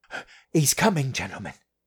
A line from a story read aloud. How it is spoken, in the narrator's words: he said breathlessly